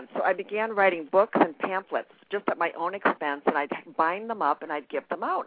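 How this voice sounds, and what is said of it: Very fast speech, New York. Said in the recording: “I'm from New York, so I'm talking so fast.”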